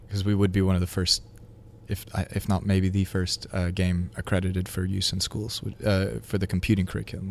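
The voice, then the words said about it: Speaks with a noticeable accent. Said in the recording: “I'm obviously detecting an accent there.”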